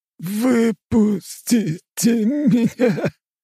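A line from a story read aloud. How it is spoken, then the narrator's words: Tearful roar. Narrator (Russian): рычал сквозь слезы император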